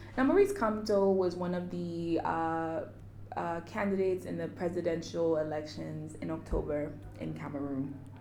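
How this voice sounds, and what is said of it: Speaks with a noticeable accent. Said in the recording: “my accent just shines through the episode. That just shines.”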